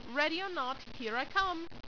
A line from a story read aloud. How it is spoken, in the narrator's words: shouted a voice